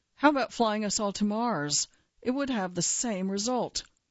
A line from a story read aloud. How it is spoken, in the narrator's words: She asked grimly